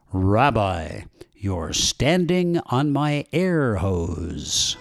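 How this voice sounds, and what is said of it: Loud, booming, declamatory voice. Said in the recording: “in a stentorian voice”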